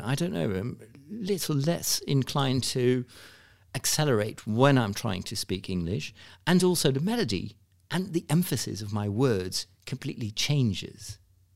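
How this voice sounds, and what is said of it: Fake British accent, Jony Ive impression. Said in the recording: “if I would do like a fake British accent, I would probably lower my voice a little bit and also slow down ... right now, I'm trying to do my Johnny Ives impression, and I know that it's nothing. When you're really from the UK, you will probably think this is rubbish”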